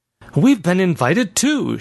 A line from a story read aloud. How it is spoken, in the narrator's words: she blurted